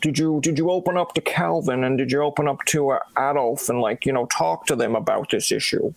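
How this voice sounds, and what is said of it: Bad Dr. Phil impression. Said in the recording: “I'll put on my Dr. Phil hat and maybe the worst accent ever”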